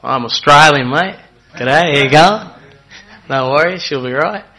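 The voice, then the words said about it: Put-on Australian accent. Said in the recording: “maybe I can put on the accent as well”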